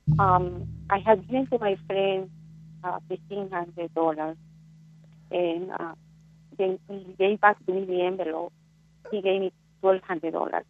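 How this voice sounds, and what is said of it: Foreign accent, hard to understand. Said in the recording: “I am having a little bit of a hard time making out everything you're saying. It could be the phone connection and just the accent.”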